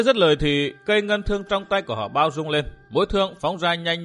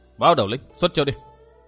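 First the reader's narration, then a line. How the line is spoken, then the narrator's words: Shout. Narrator (Vietnamese): Vua Tư Minh, quát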